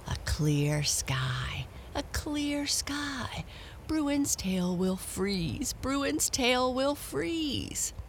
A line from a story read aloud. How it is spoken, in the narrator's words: He said wickedly under his breath